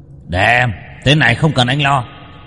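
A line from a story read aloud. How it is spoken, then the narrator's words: Dragon's growl. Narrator (Vietnamese): Du hóa thành giao long mà gầm gừ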